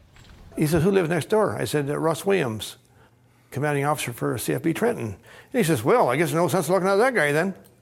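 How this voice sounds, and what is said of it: Strong Canadian accent. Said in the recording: “everyone in Canada does not talk like this guy. We don't all say A. ... such a Canadian clip”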